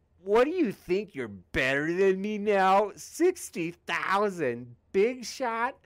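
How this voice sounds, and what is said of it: Impersonation of a chat viewer. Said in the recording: “this is my impersonation of Cranky Beast ... Oh, that's my best impersonation.”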